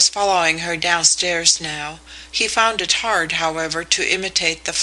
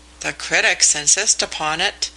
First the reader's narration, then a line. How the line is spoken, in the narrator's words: he observed dryly